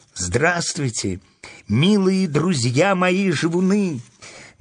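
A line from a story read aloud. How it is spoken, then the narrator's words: Ringing child's exclamation. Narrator (Russian): воскликнула девочка своим звонким детским голосом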